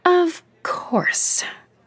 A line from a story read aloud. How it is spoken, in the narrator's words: Emma groaned